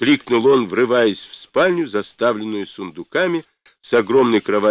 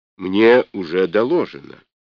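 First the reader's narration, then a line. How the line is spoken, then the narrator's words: Calm answer. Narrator (Russian): спокойно ответила Анна Ивановна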